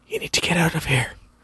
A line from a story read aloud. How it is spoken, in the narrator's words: the boy whispered loudly